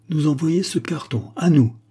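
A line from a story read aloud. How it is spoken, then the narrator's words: Exclaimed. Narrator (French): s'écria-t-il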